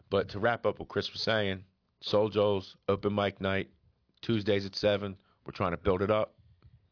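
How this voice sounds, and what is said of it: Philadelphia-area Delco accent. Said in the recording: “the accent, the Delco accent, which is basically our accent ... That whole East Coast Philly thing ... And we all do it.”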